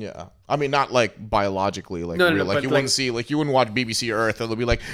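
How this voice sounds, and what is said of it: Usual voice. Nothing is said of it.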